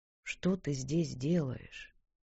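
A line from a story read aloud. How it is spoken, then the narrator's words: Quiet, not accusing. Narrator (Russian): произнесенные тихо, а не обвиняюще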